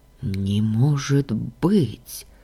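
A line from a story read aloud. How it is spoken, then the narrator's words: Whisper. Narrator (Russian): прошептал Лоран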